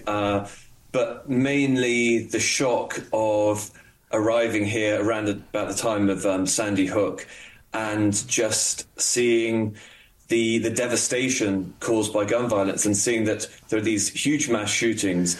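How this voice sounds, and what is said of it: British accent. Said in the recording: “the accent gives it away ... This guy's a Brit.”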